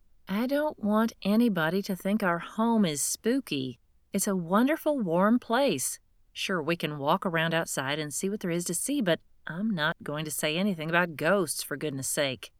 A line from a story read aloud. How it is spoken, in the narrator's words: I exhibited amazing self-control, and my voice rose only a little when I said